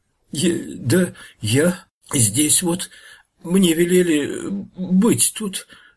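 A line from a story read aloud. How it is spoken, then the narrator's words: Frightened stammering mumble. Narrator (Russian): заикаясь от страха, забормотал подлешек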